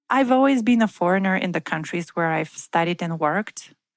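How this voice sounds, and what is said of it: Bulgarian, Russian-sounding accent. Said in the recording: “I'm Bulgarian with a Russian-sounding accent.”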